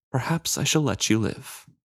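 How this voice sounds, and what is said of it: Smaller, quieter voice. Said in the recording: “In a smaller voice,”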